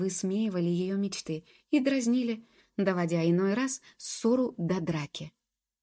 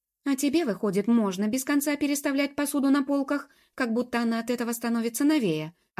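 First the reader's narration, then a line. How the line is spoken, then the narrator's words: Snapping retort. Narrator (Russian): огрызнулась Джуб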